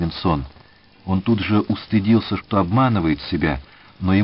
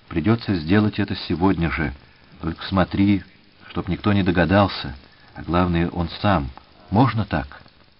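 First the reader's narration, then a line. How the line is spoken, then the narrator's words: Quiet. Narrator (Russian): он сказал тихо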